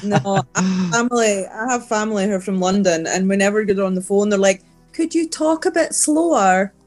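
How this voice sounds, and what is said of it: Speaks with a noticeable accent. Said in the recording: “Especially with my accent. ... It's not too bad.”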